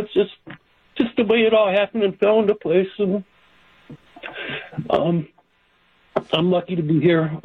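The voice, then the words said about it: Emotional, choked-up voice. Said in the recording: “I'm getting a little emotional.”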